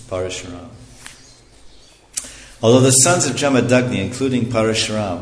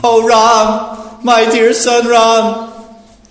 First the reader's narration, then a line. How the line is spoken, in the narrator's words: Lamenting in grief for the death of her husband, the most chaste Renuka cried loudly